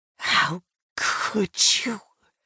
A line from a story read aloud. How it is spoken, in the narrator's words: choked out